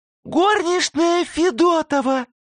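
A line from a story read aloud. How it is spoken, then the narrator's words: Nasty squeaky voice. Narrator (Russian): пропищал Фондорин противным голоском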